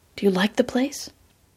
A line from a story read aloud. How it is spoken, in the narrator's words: She whispered